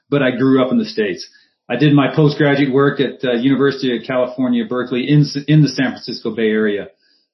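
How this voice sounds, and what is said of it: American accent. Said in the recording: “a Geordie with an American accent”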